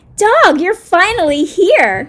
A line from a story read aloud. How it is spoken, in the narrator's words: Monkey exclaimed with excitement